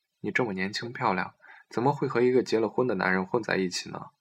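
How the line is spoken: Surprised little laugh. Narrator (Chinese): 彤彤愕尔一笑

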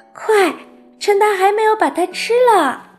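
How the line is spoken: Shouted. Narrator (Chinese): 他叫道

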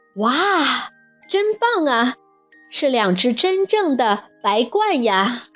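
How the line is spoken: Amazed exclamation. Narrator (Chinese): 跳跳惊叹道

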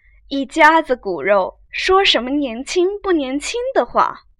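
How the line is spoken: Feigned smiling. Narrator (Chinese): 凤姐儿假意含笑道

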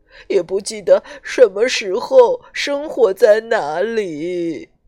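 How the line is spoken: Choked sobbing. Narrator (Chinese): 他哽咽着说

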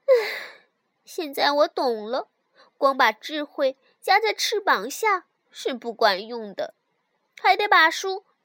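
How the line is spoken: Sighing. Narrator (Chinese): 最后他叹了口气说

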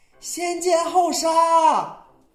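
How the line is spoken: Wife shouting from outside. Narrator (Chinese): 妻子就在外边喊呢

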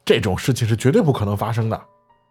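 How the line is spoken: Hasty interruption. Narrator (Chinese): 关超急忙打断我说

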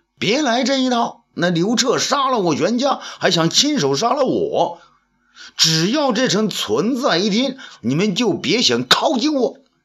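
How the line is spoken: Shouting. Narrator (Chinese): 那赵信也嚷道

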